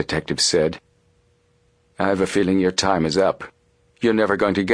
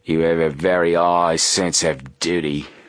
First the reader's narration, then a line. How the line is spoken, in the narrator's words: sneered Snapman